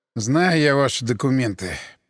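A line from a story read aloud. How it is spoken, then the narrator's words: Muttering. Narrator (Russian): пробурчал я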